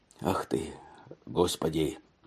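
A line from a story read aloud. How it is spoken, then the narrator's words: Muffled speech. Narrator (Russian): заговорил он глухо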